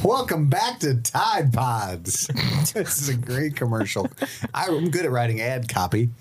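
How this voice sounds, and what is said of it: TV commercial announcer voice. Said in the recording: “I didn't do a good commercial skit impression”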